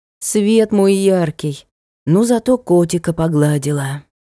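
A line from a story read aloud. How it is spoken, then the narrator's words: Gloomy statement. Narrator (Russian): мрачно сообщила отражению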